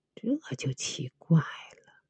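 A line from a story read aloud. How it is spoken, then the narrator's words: Embarrassed, murmuring. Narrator (Chinese): 刘神医霎时窘得无地自容，嘴里不停的喃喃道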